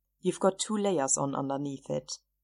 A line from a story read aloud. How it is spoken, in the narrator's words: Chris said dryly